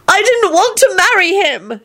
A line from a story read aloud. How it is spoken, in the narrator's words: she sobbed